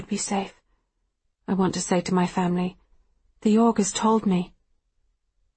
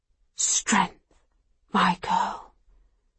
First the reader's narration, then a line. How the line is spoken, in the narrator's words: whispers